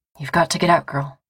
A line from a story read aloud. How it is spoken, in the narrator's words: says Simon something hoarsely